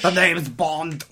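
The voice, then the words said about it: Strained, strangled-sounding Bond impression. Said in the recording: “That was a terrible impression. ... It sounded like you were being strangled.”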